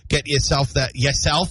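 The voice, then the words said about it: Brief put-on accent. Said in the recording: “where'd that accent come?”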